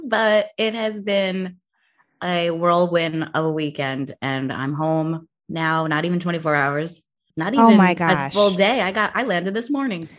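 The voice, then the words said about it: Voice sounds worn and different. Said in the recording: “I am in full recovery mode... I don't know if you can tell how different my voice sounds today”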